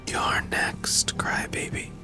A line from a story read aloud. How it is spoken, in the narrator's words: He heard the clown whisper